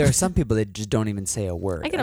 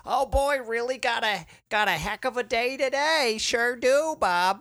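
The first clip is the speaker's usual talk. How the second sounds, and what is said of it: Put-on Maine accent, Monsters, Inc. secretary. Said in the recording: “you and your like main accent ... the secretary from Monsters, Inc.”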